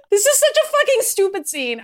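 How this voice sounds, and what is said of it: Screaming. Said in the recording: “sorry for screaming.”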